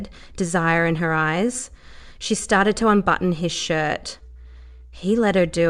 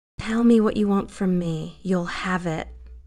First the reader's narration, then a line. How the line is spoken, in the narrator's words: she said in a low, sultry whisper